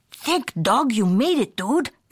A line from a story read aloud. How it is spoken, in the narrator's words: exclaimed Don Diego, the biggest of the small ones